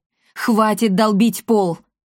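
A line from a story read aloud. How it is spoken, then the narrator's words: Sharp shout. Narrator (Russian): прикрикнул на него глава ордена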